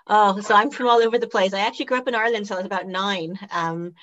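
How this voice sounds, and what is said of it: Irish accent. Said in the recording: “lovely accent ... I am Irish originally ... it stayed with me”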